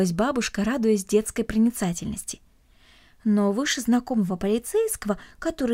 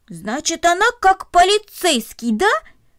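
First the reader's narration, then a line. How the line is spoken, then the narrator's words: Joyful, pleased exclamation. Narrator (Russian): радостно воскликнул, довольный своим открытием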